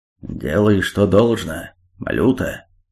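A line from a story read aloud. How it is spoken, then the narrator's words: Growling. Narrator (Russian): правитель Руси прорычал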